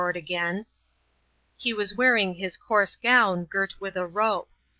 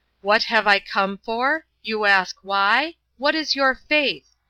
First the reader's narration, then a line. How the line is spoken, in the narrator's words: shouted Father Ferapont crazily